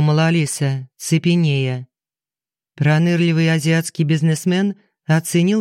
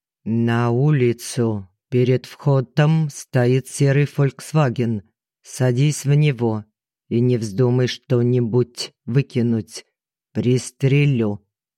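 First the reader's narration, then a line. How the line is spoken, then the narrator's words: Slow, heavy accent, drawn vowels. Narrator (Russian): говорил он медленно, с сильным и очень знакомым акцентом, бесконечно растягивая гласные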